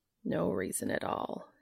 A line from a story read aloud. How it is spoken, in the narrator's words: he mumbled